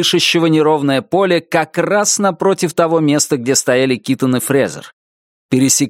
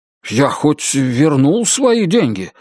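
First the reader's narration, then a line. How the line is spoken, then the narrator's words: Frightened question. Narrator (Russian): испуганно спросил Китон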